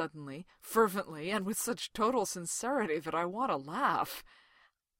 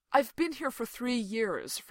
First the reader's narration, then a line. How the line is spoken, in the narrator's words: Fraser explains earnestly